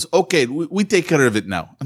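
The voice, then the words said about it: Poor Indian accent, sounds Russian. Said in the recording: “with his Indian accent ... that's a horrible Indian accent. It was more like a Russian accent.”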